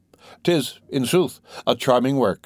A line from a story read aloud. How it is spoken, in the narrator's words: exclaimed